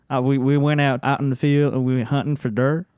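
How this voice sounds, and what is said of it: North Carolina country accent. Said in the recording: “from North Carolina, and every time he had a really country accent. So every time he would say deer, he'd say dir.”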